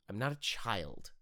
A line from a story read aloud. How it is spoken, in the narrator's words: Adira retorts bitterly